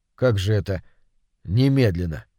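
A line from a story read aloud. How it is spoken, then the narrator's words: Plain. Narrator (Russian): сказал Толя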